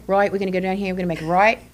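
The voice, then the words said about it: Put-on Australian accent. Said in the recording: “You're out there with an accent. ... They're all Australian.”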